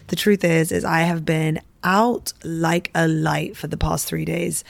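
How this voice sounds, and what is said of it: Croaky, hoarse voice. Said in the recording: “I sound croaky today, don't I? ... I have been super unwell”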